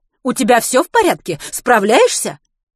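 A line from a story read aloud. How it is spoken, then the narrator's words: Snort. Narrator (Russian): Матвей фыркнул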